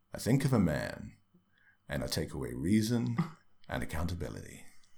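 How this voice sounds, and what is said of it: Jack Nicholson impression. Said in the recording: “Jack Nicholson, isn't it? ... My excellent impression.”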